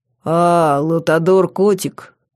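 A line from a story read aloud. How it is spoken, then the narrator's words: Deep bass voice. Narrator (Russian): сказано было густым басом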